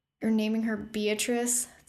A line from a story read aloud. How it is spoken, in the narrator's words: Thea groaned